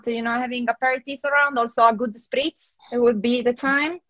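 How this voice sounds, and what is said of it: Italian accent in English. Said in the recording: “My silly Italian accent. Sometimes I mispronounce that.”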